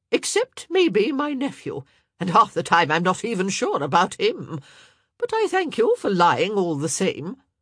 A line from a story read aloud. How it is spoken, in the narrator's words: Lady Danbury said sharply